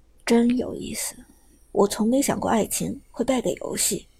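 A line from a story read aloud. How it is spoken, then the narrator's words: Long sigh. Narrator (Chinese): 苏哲长长叹了口气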